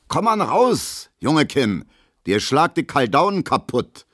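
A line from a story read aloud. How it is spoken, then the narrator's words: Calling after. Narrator (German): ruft Gustav Schmelo hinterher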